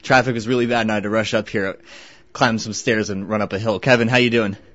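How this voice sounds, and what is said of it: Out of breath, breathless speech. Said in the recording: “I'm a little out of breath.”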